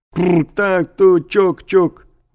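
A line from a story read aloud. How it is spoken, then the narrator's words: Camel-driver yelling. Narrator (Russian): вопил я, как кричат обычно погонщики верблюдов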